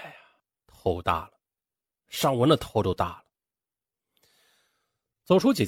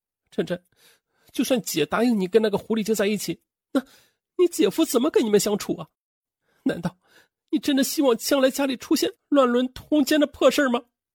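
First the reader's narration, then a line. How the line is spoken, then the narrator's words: Crying. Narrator (Chinese): 他哭着说道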